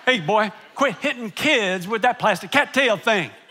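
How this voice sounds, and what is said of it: Stern coach voice. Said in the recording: “did my coach voice. You ever done the coach voice?”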